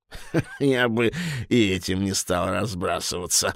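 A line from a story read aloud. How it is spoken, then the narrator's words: Laughing devil. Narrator (Russian): засмеялся черт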